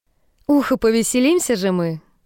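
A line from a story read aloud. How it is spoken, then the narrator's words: Plain. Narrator (Russian): говорит Саммер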